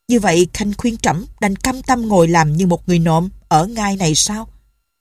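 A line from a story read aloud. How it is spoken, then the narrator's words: Suddenly harsh. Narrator (Vietnamese): Giọng báo đại bỗng trở nên gay gắt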